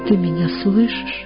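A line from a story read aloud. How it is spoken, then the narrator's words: Quiet question, close to ear. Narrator (Russian): Она подвинет губы к его уху, тихо спросит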